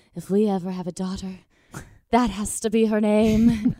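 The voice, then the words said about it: Impression of husband, Italian accent. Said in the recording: “That's a really good impression, by the way. ... I love how he has an accent. ... we were in Italy”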